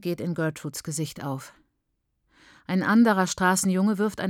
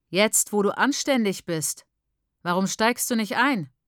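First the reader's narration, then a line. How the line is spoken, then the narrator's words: Loud disgusted workman's shout. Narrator (German): ruft ein Bauarbeiter mit vor Abscheu lauter Stimme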